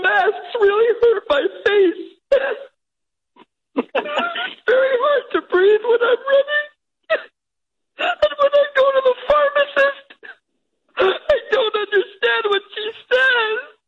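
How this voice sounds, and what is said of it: Tearful, crying voice. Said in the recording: “while you're crying? ... I don't mean to get emotional like this.”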